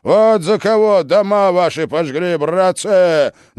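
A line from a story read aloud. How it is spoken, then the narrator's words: Shout. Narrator (Russian): закричал Шуйский стрельцам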